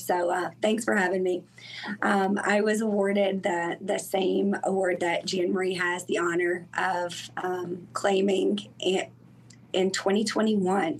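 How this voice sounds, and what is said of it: Hoarse, croaky voice. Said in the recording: “I have a frog in my throat today”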